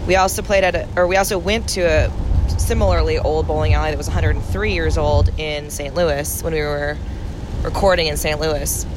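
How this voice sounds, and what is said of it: Ragged, rough morning voice. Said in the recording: “my voice is real ragged”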